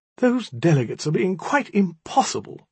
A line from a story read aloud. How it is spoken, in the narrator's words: she cried